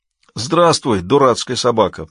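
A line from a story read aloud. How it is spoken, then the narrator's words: Groaned reply. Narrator (Russian): простонал в ответ Ваэлин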